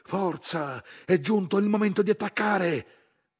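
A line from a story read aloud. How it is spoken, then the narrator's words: Shouting over engine noise. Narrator (Italian): l'autista della prima macchina carrozzata, urlando per superare il fracasso del motore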